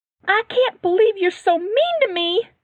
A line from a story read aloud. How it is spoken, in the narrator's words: Lizzie screamed ... crying